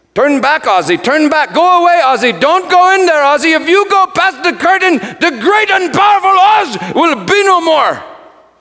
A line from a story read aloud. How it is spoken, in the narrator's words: And they were all screaming at me